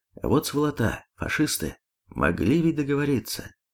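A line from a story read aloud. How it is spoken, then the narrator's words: Slightly hoarse. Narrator (Russian): Сказал с хрипотцой в голосе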